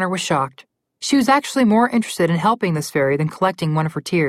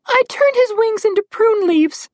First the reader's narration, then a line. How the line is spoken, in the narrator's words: the fairy said, and cried some more